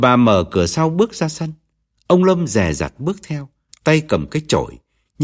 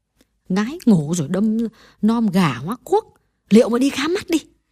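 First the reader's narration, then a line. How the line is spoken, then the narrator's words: Muttered repetition. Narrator (Vietnamese): Bà lẩm bẩm nhắc lại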